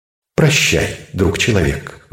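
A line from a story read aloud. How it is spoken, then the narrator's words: Sigh. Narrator (Russian): вздохнул он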